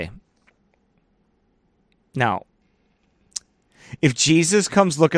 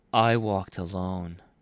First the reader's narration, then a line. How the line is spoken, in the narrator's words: The Lord repeated softly